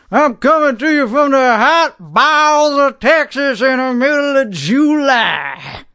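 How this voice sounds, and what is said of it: Texan accent. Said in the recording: “That's an authentic accent. Because I am an authentic Texan”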